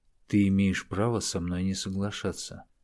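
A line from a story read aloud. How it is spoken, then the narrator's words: Very quiet speech. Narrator (Russian): очень тихо произнес он, чтобы его услышала только Луиза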